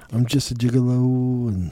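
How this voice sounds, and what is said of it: Sung imitation of another person's voice. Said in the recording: “My Sammy Hagar impression.”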